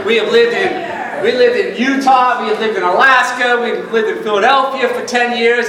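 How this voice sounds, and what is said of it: Long Island New York accent. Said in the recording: “I grew up in Long Island, New York. ... So the accent might come out now and then ... everyone speaks like this”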